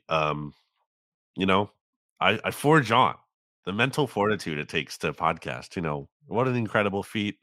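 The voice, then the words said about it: Sick, under-the-weather voice. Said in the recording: “you're a little bit under the weather yourself... you might be able to hear it in my voice... My voice doesn't sound great”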